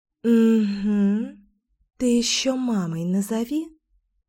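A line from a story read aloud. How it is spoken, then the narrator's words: Snide inner whisper. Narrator (Russian): ехидно прошептал голосок вредины в моей голове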